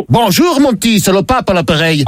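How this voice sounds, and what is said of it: Put-on Belgian accent, pope character. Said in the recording (French): “pourquoi cet accent? ... je suis le pape Léon de Bruxelles”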